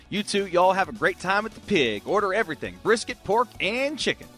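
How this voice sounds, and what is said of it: Put-on Southern accent. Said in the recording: “what was that voice ... did at the end there? I know it was a southern voice”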